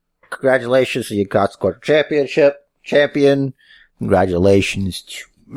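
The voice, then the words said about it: Imitates another person's voice. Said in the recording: “That was my Miz impression.”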